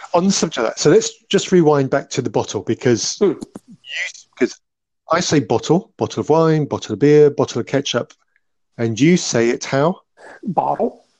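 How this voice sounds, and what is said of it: British accent, crisply enunciated T's. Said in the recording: “my lovely Queen's English British accent. I, my T's are much more clearly enunciated”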